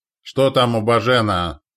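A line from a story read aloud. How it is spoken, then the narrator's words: Angry bark. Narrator (Russian): зло рявкнул Назар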